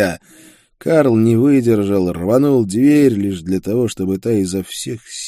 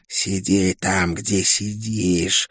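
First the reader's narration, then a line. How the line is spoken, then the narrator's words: Hissed. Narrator (Russian): прошипела Оккул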